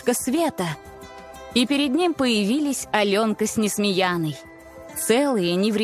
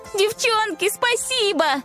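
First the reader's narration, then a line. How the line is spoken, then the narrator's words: Shouted. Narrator (Russian): закричала Аленка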